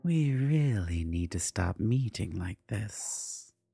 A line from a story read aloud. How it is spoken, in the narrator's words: Cordiva purred